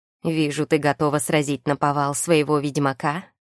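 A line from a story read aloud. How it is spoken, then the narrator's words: Smirking grunt. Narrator (Russian): хмыкнул Фуфырь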